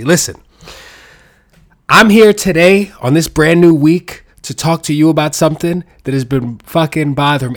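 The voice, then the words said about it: Nasal, stuffy-nosed voice. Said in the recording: “I sound like my nose has been stuffy for a while and I need to blow it maybe ... like some nasally motherfucker, like a man version of Fran Drescher”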